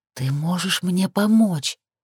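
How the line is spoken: Languid whisper. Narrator (Russian): прошептала томно

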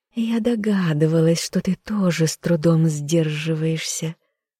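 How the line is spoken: Purring. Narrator (Russian): мурлыкнула она

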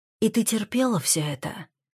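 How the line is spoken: Almost whispering question. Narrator (Russian): спрашиваю я почти шепотом

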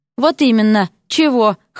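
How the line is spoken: Snorting. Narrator (Russian): хмыкнул Эрик

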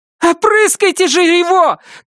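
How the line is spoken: Shout. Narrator (Russian): крикнула Кэт Дженсену

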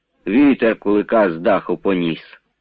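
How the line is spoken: Calm report. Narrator (Ukrainian): спокійно доповідає Джура

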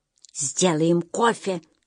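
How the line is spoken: Whisper. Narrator (Russian): шепнул

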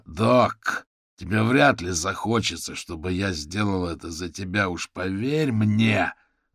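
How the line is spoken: Growled. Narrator (Russian): прорычал шляпник

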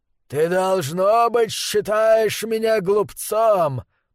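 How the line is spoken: Growled. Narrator (Russian): прорычал он

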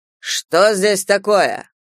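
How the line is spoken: Irritated. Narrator (Russian): проговорил он раздраженным тоном

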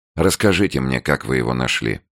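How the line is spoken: Bored request. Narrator (Russian): скучным голосом попросил Андрей

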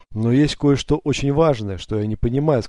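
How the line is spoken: Plain. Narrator (Russian): сказал Дарим

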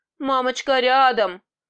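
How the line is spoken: Hoarse male voice. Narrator (Russian): произнесла я мужским севшим голосом

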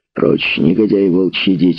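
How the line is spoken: Growling. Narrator (Russian): рычал Патрик

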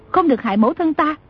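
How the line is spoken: Frantic loud shout. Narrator (Vietnamese): Lòng chàng nóng như lửa đốt, chàng chỉ muốn hét to lên

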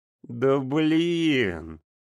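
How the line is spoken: Exasperated exhale. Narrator (Russian): Выдохнула Лена

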